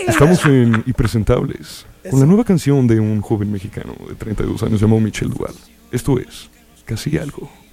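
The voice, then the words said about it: Radio announcer voice. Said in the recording (Spanish): “Con voz de locutor de radio.”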